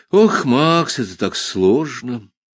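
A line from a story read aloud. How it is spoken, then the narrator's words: Sighing. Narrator (Russian): вздохнул мой шеф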